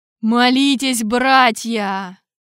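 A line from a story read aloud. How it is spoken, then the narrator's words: Thundering. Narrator (Russian): прогремел Тарквимада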